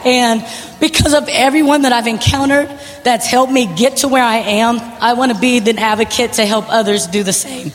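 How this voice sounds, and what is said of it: Strained, emotional voice. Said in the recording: “I'm really not hoarse. I'm just emotional right now.”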